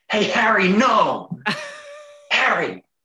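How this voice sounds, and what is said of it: Put-on American bully accent. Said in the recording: “do an impression of that now ... Of the accent, of the American bully.”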